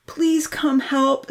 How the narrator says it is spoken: Santa called out urgently, in a panic

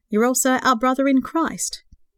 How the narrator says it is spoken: he chuckled

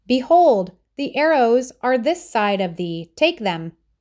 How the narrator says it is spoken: Jonathan would shout to the boy

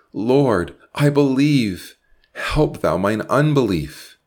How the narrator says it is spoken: He cried out pathetically, yet triumphantly

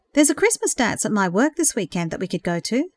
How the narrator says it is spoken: suggested quickly

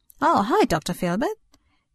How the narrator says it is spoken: Cara responded cheerfully

